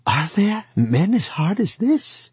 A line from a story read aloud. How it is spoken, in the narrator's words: Wang Lung listened to this in astonishment, and he cried